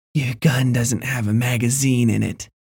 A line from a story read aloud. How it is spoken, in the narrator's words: she whispered, smiling at me with bloody teeth